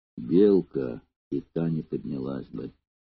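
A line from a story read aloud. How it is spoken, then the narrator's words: Whispering. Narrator (Russian): Спартак прошептал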